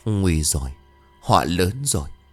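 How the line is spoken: Trembling, stammering old woman. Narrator (Vietnamese): Bà toàn thân run rẩy, miệng của bà lắp bắp

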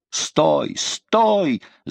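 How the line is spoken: Shouting. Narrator (Russian): закричал де ля Марк

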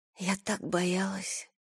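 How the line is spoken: Whisper. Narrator (Russian): прошептала Айрис

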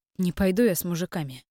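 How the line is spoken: Calm girl's reply. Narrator (Russian): спокойно ответила девушка

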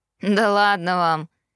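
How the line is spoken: Snorting. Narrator (Russian): фыркнул Эштон

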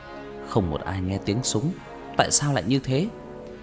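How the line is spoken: Muttering. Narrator (Vietnamese): Cậu ta lẩm bẩm

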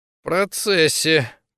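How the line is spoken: Mumbled. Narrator (Russian): пробормотал Витя

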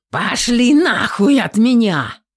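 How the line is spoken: Roaring, animal-like yell. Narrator (Russian): Заорала Татьяна, и ее голос звучал скорее как рычание зверя

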